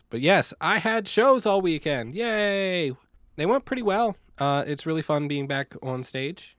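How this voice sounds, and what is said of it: Worn, rough-sounding voice. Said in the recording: “my voice sounds terrible”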